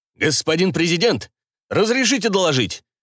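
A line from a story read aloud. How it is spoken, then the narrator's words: Barked. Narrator (Russian): рявкнул генерал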